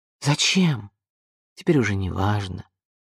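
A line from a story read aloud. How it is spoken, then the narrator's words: Sighing. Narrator (Russian): вздохнул он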